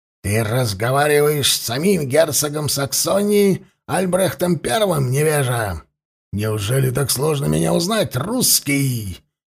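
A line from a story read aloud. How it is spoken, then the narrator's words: Nearly growling. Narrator (Russian): чуть ли не прорычало его высочество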